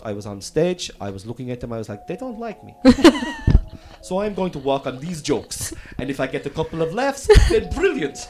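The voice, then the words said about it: Bad put-on German accent. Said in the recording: “That's a really bad German accent.”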